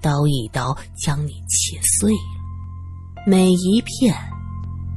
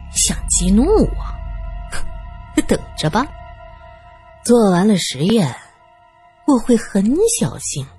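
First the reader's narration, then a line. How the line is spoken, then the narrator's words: Laughing loudly. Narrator (Chinese): 武则随即大笑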